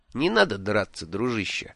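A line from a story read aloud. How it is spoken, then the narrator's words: Gentle. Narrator (Russian): мягко сказал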